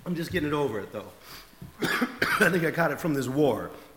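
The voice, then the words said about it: Slightly congested, sick-sounding voice. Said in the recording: “I have a little bit of a cold.”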